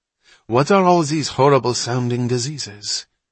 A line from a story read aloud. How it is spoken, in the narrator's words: Hatch sighed